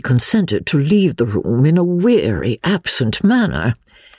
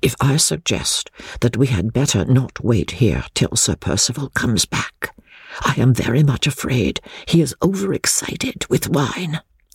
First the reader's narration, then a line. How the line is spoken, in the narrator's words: I whispered